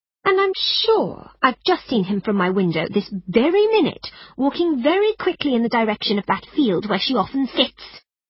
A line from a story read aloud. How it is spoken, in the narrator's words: she cried